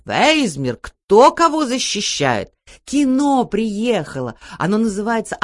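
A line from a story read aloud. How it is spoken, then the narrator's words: Frightened mother shouting. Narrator (Russian): Мама испугалась и тоже закричала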